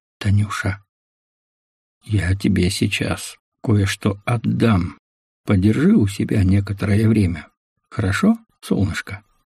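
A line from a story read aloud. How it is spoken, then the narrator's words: Quiet. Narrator (Russian): Мазай наклонился к уху Танюшки и тихо произнес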